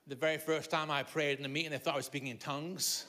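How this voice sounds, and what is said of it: Mixed Liverpool, Scottish and Irish accent. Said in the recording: “I was born in Liverpool... I spent my childhood in Scotland and my teenage years in Ireland, and then the last 40 years in England. So my accent is, is that reason... they couldn't understand me.”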